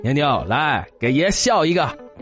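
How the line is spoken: Sly smirk. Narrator (Chinese): 我就坏笑着对她说

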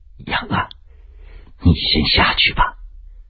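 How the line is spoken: Low voice. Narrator (Chinese): 他低声道

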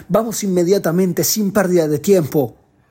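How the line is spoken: Shouting. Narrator (Spanish): Otro de los oficiales apoya esta opinión gritando

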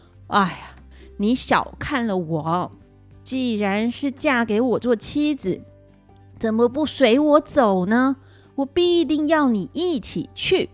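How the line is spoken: Sighing. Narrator (Chinese): 姜子牙叹口气说

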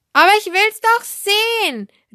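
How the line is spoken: Calling out. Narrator (German): rief Elsbettchen

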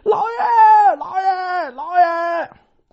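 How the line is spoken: Repeated calling. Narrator (Chinese): 喊了多少声啊

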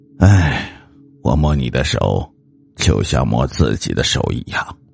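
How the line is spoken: Soft sigh. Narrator (Chinese): 我轻轻的叹了一口气，只说了一句

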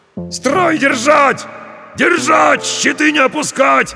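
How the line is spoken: Shouted commands. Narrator (Russian): орали десятники

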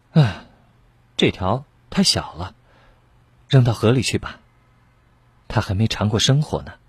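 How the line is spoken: Muttering. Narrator (Chinese): 他嘀咕着

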